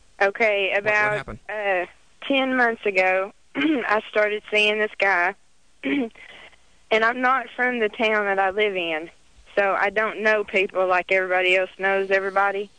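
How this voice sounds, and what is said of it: Southern American accent. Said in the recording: “I can tell by your voice. ... just because I talk Southern”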